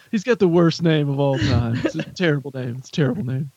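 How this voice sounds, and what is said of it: Imitates another person's voice. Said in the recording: “Dueling Trump impersonations.”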